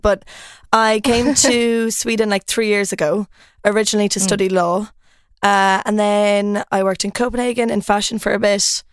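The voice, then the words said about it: Irish accent. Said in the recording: “So I'm Irish. I don't know if you can tell from the accent. A lot of Swedes think that I'm Australian for some reason.”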